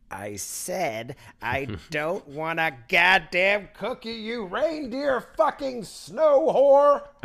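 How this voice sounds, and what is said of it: Character voice impression. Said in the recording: “That was a great Shiny impression. That was fantastic.”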